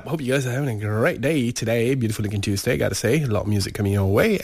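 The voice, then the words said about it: Weak, breathless voice from flu. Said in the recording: “my voice is not all there ... I'm finding it very hard to breathe right now. So because of the flu that I've got”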